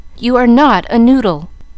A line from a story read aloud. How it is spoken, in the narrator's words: cried Mamma, resenting the epithet